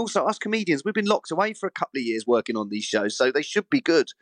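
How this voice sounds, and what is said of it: Usual voice. Nothing is said of it.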